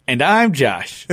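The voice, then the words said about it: Announcer-style radio voice. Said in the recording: “You like my radio voice? That's my radio voice. ... It was an excellent vocal inflection there.”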